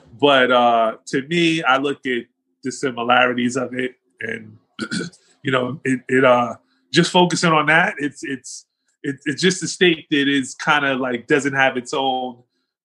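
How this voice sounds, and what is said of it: New York New Jersey accent. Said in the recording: “that's what you're hearing. It's that New York, New Jersey accent”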